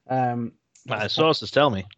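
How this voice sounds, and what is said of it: Imitates another person's voice. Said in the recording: “Terrible impression”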